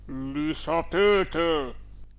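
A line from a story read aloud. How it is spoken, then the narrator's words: Grave voice. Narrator (Italian): risposi con voce grave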